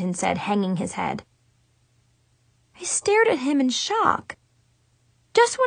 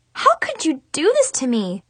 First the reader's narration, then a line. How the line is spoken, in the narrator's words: I cried